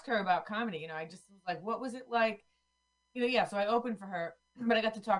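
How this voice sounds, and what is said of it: Usual voice. Nothing is said of it.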